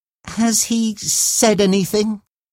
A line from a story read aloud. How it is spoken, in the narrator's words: said, nervously adding